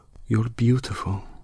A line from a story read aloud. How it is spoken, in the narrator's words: she whispered tenderly in her ear, and there was sadness in it